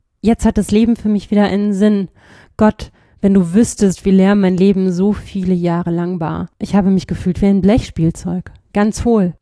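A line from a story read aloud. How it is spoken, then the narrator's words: Trembling voice. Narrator (German): sagte er mit bebender Stimme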